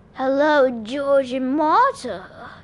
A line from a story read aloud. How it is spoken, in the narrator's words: a raspy male voice said inside my head